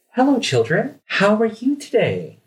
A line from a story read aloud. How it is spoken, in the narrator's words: Yolanda will present herself, yeah, gently and say